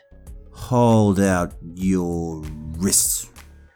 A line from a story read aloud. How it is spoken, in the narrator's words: he sneered